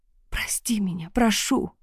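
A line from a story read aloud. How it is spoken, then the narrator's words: Whispered. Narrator (Russian): прошептала я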